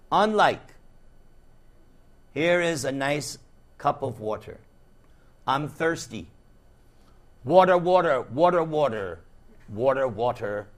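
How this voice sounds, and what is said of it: New York accent. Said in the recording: “As you can see, I'm from New York. You see my accent? Even I'm recognizing it.”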